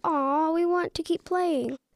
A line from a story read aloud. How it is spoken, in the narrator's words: All the kids whined